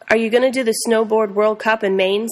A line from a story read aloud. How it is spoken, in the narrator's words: asked